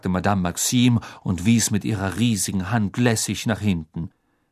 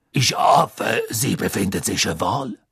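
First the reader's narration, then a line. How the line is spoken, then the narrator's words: Deep voice. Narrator (German): sagte Madame Maxime mit tiefer Stimme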